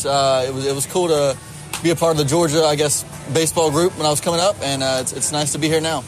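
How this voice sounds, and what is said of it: Southern US Georgia accent. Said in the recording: “From your wonderful accent, you're from the South, you're from Georgia ... as you can hear from my accent, I'm very much proud of my Georgia roots.”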